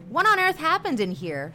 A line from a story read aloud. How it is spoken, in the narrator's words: demanded in an angry voice